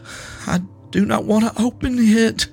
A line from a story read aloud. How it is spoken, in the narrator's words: he said in a quiet, choked voice